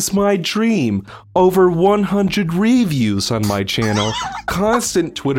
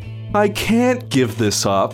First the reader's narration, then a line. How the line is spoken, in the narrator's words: Alec sighed